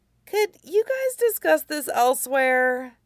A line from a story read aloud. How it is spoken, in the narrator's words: Nie Huaisang whined